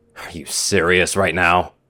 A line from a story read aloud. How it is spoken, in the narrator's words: Shining scoffs